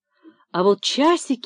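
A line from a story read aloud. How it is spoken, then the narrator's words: Sighing again. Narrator (Russian): вздохнул снова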